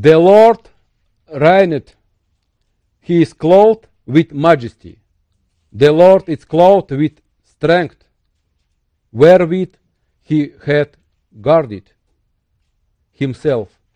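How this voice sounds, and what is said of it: Strong non-native English accent. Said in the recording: “Sorry for my hard accent.”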